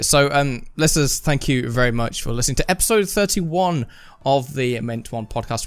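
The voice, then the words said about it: Radio announcer voice. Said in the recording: “do you want to do the outro in your radio voice?”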